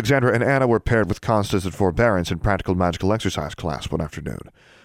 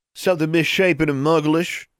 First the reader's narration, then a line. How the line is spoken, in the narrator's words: jeered a voice behind them